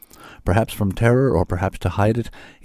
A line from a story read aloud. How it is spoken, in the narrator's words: he answered in a shaky voice, carefully minding his manners